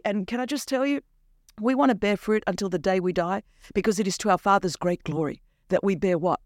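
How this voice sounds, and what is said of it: Australian accent. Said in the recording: “This Australian accent is a lot on a Wednesday morning.”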